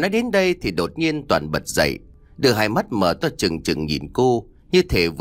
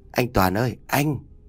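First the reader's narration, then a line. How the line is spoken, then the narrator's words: Soft woman calling husband. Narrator (Vietnamese): khẽ lại chồng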